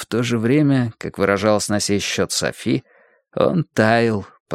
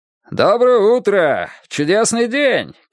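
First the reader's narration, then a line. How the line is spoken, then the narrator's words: Playful shout. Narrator (Russian): кричал он, если был в игривом расположении духа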